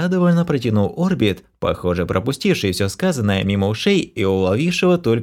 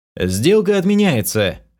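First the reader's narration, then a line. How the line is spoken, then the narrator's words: Barked. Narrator (Russian): рявкнул я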